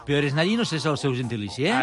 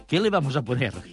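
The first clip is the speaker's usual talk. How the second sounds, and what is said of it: Put-on Chilean Spanish accent, sounds Mexican. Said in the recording (Catalan): “amb accent de Xile ... Això és mexicà, sí, però és igual, està a tocar”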